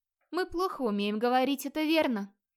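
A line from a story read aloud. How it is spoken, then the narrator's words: Sighing confession. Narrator (Russian): снова вздохнув, созналась бродяжка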